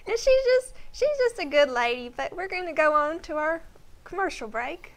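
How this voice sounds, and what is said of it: High-pitched country woman's voice. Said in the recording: “I can sort of do her voice. It's real high pitched like this, and it's real country.”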